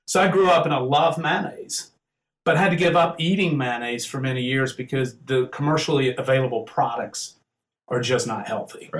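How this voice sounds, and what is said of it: Mild Southern US accent. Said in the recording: “I'm from the South. You can probably tell I have a little accent.”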